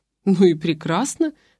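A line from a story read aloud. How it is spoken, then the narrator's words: Snort. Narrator (Russian): хмыкнул Тихон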